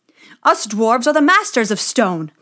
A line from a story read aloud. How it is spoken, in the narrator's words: they cried